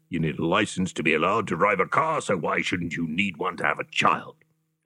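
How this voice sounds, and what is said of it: Imitates another person's voice. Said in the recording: “That was my impersonation of”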